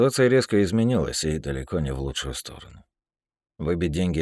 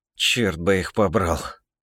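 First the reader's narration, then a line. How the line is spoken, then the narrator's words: Breathed out. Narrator (Russian): выдохнул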